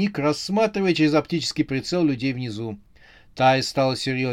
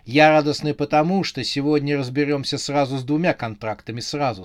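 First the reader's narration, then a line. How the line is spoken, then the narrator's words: Plain. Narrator (Russian): сказала она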